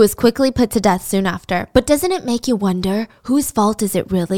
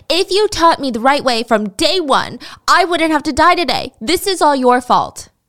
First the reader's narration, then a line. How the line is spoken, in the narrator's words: he angrily yelled at her